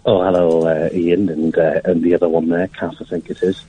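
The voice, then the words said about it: Silly put-on voice. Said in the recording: “What are you doing a voice for? ... I put a silly voice on.”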